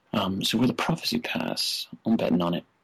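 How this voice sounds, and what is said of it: Fake British accent. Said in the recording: “this time in a fake British accent. Don't mean to offend any British people ... not meaning to offend anyone with the accent, just fun”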